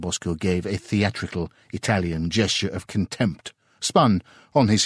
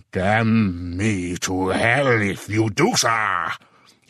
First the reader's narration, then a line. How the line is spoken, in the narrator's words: he roared loudly enough to make heads turn half a block away